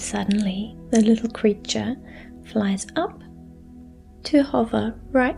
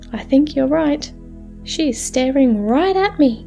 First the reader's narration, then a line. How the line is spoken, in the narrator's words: with a giggle, the little fairy says